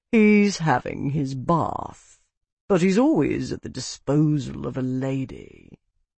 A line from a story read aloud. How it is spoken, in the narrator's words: a calm, almost languid voice said in a lazy Parthian drawl